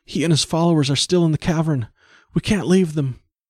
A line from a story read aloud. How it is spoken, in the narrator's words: breathed the girl